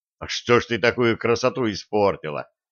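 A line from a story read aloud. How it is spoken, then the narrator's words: Snort, young man. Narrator (Russian): хмыкнул юноша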